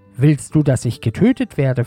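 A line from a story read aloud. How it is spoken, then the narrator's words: Plain question. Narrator (German): fragte die Frau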